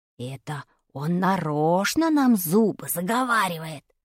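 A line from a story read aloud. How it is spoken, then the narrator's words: Whispered in ear. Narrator (Russian): шепнул мне на ухо Вадик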